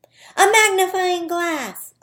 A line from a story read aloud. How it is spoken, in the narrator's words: Owen shouted